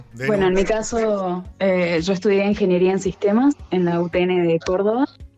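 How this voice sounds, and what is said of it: Smooth radio announcer voice. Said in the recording (Spanish): “es una, voz de radio ... es una voz de locutora”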